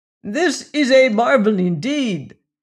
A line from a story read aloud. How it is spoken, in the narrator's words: cried, when silence had at length been restored